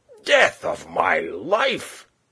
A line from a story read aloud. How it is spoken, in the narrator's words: he cried